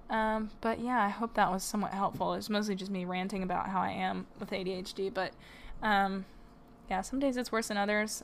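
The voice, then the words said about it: Tired, fading voice. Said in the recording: “You can tell my voice is going out ... as I'm getting tired”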